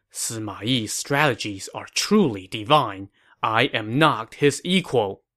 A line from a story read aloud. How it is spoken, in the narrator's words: Stunned, Guo Huai could only mutter to himself